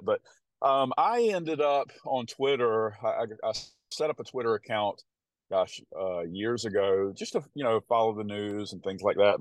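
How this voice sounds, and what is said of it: Southern US country accent. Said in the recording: “my country accent ... I sound like such a country bumpkin, living in the South”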